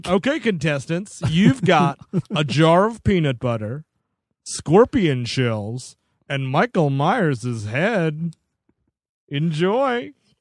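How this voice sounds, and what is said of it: Imitates a game show host's voice. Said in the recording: “Oh, this Ted is Chopped. ... Yeah, it's Ted Allen. Oh, my Ted Allen impression.”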